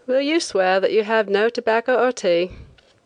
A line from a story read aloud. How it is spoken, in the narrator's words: the inspector asked my escort lazily